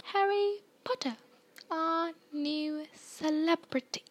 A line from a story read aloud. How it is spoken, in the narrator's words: he said softly